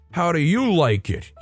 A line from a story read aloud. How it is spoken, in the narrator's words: he shouts down from his Dodge Durango